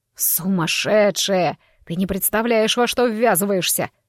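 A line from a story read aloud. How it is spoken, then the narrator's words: Groaning. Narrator (Russian): простонал ректор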